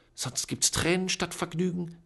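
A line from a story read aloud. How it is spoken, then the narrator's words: Hissed warning. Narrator (German): zischte Tante Eustacia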